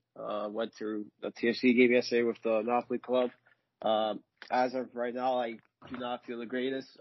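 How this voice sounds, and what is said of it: Congested, slightly hoarse voice. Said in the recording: “my nose is congested. My voice is a little gone from probably all the yelling”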